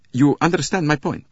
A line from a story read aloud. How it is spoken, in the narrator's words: The other said anxiously